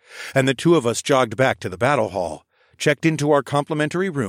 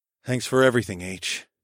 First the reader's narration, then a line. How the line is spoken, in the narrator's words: I muttered back